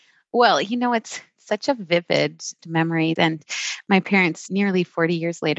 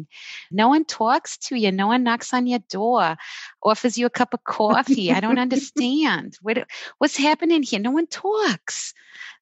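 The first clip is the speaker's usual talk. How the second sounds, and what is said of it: Imitated strong New York accent. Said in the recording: “their strong New York accents”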